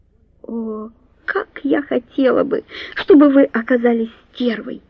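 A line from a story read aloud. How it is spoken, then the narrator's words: Whispered. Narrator (Russian): прошептала Дженни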